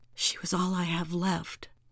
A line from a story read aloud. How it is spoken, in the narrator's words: Iris whispered to herself